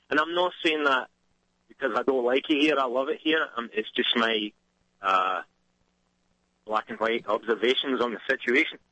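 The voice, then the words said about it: Scottish accent. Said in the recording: “that other Scottish accent”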